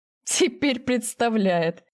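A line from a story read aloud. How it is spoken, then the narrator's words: Laughing chuckle. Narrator (Russian): хохотнул Макс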